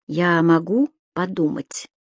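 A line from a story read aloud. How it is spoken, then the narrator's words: Barely audible question. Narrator (Russian): Кашуба еле слышно спросил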